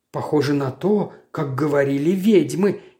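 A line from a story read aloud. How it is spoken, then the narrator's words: Uncertain agreement. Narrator (Russian): неуверенно согласилась моя спутница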